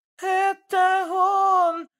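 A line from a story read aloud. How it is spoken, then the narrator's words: Woman shouting. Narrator (Russian): закричала Лена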